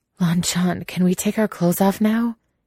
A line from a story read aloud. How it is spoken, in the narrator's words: He gasps